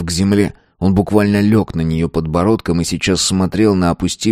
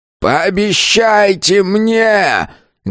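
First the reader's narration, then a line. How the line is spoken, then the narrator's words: Wounded old man howling loudly. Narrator (Russian): громко взвыл раненый старик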